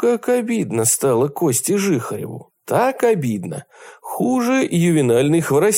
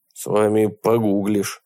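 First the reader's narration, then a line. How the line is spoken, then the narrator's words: Grumbling. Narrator (Russian): только и проворчал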